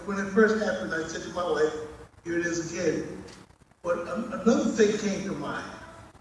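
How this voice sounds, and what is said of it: Strong accent. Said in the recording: “he has a strong accent”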